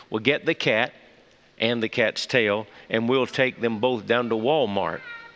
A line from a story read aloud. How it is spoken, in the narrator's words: he calmly replied to her